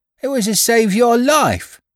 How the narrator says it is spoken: cried the boy

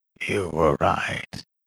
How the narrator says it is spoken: the man mumbled to the old-timer of Sulphur Creek

